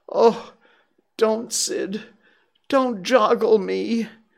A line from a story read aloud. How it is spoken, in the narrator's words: Tom moaned out